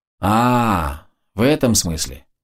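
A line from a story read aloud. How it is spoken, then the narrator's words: Drawled. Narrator (Russian): протянула Шиза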